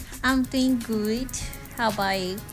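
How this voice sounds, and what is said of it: Baby voice. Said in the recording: “Why are you giving us this baby voice?”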